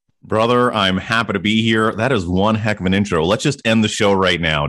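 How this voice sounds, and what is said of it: Polished radio announcer voice. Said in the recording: “he's got the radio voice down pat”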